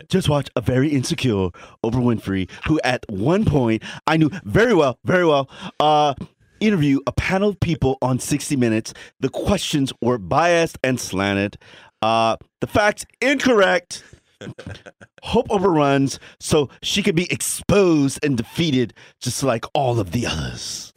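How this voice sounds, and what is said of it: Donald Trump impression. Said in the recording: “I'm going to try my Donald Trump accent. Okay, ... get in character.”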